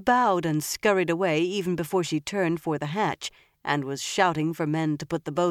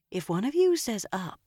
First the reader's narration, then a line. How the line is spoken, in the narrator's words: Elaine murmured